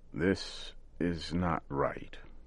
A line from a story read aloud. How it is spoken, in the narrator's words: Old Joe said slowly and carefully